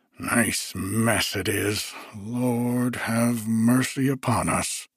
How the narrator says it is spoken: muttered Semyon

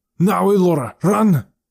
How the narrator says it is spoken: Nat shouted

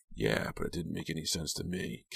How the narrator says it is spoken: Kit sighed

